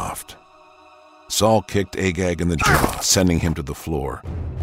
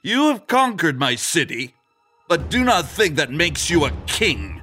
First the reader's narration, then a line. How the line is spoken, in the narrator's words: he spat in Saul's direction